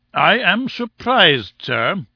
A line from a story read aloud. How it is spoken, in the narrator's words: boomed Challenger